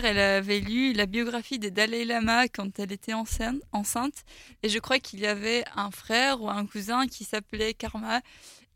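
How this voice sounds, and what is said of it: Luxembourgish-accented French. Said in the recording (French): “on l'entend à ton accent, tu ne viens pas de France. Tu viens du Luxembourg”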